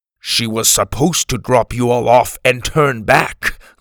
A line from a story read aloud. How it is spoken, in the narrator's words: Grebe said harshly